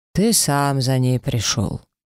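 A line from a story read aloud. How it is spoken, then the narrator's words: Calm objection. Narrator (Russian): спокойно возразил Эш Архараш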